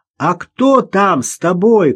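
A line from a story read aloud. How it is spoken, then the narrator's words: Surprised shout. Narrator (Russian): крикнул Ростовцев, явно удивленный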